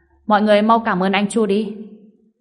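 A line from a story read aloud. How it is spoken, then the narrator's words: Raised voice. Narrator (Vietnamese): anh ta cao giọng nói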